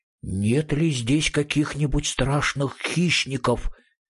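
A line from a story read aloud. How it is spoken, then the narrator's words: Frightened whispered question. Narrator (Russian): Мумитроллю постепенно становилось все страшнее, и он шепотом спросил маму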